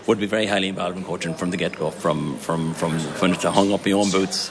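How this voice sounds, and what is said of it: Irish accent, not from Donegal. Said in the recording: “as we gather by that accent, not a Donegal man”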